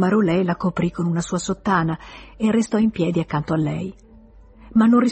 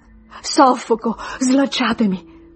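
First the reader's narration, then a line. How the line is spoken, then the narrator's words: Sobbing. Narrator (Italian): singhiozzava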